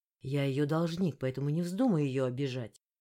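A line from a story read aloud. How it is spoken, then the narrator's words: Angry. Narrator (Russian): зло произнес пиротехник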